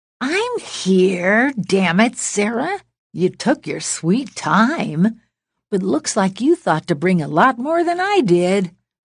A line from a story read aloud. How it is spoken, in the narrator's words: Linda cackled wildly